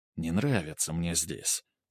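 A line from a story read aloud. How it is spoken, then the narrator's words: Whispered into ear. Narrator (Russian): прошептал Грубер Снегирю на ухо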